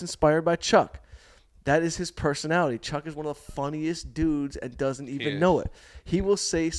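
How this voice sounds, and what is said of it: Usual voice. Nothing is said of it.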